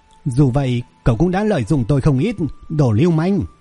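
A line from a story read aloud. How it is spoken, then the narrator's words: Embarrassed, defiant shout. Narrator (Vietnamese): cô ấy với chút ngại ngùng, không chịu thừa nhận sai lầm của mình và hét lên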